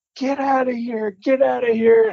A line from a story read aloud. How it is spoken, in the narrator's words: I hear Adam hollering